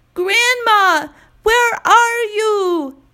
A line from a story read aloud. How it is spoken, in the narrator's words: yells Keen, bursting into tears